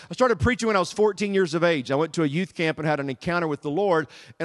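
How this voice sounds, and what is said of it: Southern American accent. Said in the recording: “My accent gives me away. ... Did my accent that bad? So I hope you guys can understand the Southern dialect today.”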